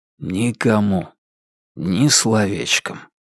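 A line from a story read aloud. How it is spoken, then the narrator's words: Whispered reply. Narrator (Russian): шепнул в ответ Дани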